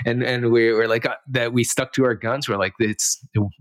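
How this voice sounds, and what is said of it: Usual voice. Nothing is said of it.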